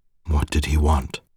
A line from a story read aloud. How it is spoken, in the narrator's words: the shaky rumble in his voice